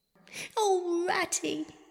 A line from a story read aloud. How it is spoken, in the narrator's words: he cried dismally